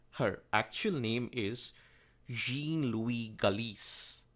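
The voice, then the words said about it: Attempted French accent. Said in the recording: “That's the best I can do in French accent.”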